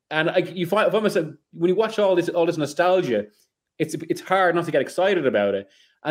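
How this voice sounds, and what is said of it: Irish accent. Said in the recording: “I'm half Irish, as you can tell from the accents”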